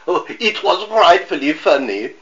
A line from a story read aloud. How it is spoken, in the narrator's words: giggled